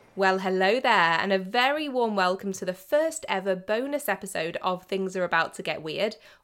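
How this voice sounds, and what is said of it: Sick, under-the-weather voice. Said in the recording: “As you may be able to tell from my voice, I'm a little bit under the weather”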